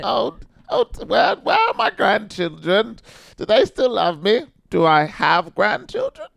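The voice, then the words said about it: Old grandmother voice. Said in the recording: “What's my accent for grandma's?... Yeah, that's it. You got it.”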